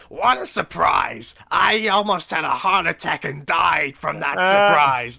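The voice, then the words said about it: Imitates another person's voice. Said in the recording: “doing a Gilbert Gottfried impression”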